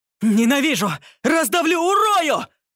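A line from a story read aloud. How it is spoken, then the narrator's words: Yelling in overwhelming emotion. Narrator (Russian): В порыве охвативших чувств заорал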